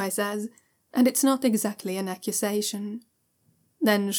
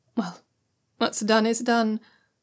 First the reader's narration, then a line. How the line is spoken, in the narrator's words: Zhao Yunlan says with a sigh